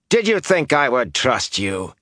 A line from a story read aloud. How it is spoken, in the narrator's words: he sneered